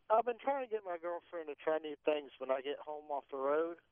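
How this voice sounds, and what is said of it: Southern country twang accent. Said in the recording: “I love the country twang tonight... She loves that accent over there”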